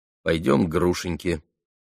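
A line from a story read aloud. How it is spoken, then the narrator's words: Calm, immediate answer. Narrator (Russian): спокойно и тотчас же ответил Алеша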